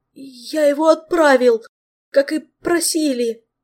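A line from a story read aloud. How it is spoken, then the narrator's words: Timid babble. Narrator (Russian): пролепетал Скрайс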